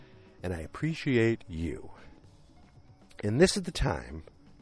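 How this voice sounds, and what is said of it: Usual voice. Nothing is said of it.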